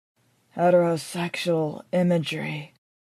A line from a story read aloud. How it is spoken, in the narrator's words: I whisper